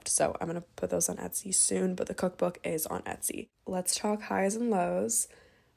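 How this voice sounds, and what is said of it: Sick, cold-affected voice. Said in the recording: “I don't know if you guys can hear it in my voice, but I can definitely feel it. I am battling a cold”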